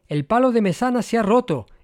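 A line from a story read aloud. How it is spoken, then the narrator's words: Exclaimed. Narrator (Spanish): exclamó Donifaz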